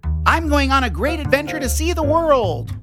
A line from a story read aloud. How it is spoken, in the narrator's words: Penry shouted